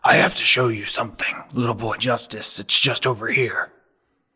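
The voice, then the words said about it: Low-pitched character voice. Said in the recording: “in his characteristic low voice”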